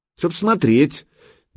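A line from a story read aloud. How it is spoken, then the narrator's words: Doubtful, through teeth. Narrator (Russian): Девица процедила с сомнением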